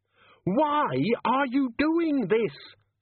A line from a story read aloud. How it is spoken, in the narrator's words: Susan screamed